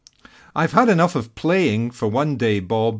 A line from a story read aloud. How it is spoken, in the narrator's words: Ledger sighed